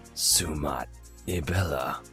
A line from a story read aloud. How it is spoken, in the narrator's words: he whispered romantically in twin speak